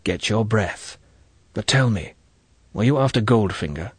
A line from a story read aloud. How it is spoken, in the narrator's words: He whispered